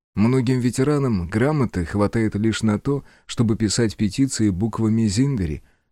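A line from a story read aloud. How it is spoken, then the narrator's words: Gentle retort. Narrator (Russian): мягко парировал Фиро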